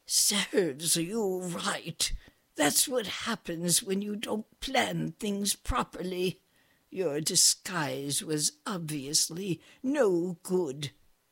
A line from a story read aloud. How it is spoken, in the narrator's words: the queen whispered in her ear